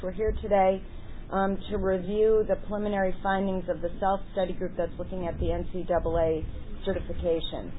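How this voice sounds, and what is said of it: Hoarse, strained voice. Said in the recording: “I'm starting to lose my voice a little bit here”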